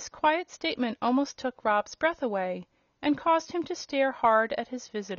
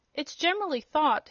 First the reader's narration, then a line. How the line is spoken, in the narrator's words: he resumed, in an annoyed tone